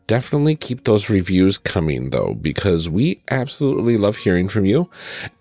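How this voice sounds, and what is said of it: Sick-sounding voice. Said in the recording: “give my sick voice a rest”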